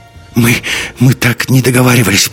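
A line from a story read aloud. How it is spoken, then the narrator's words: Timid babble. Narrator (Russian): пролепетала Марта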